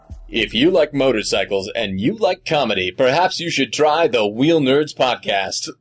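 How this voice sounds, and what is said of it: Mock radio announcer voice. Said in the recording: “doing my announcer voice.”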